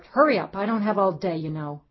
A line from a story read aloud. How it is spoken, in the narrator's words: Paula barked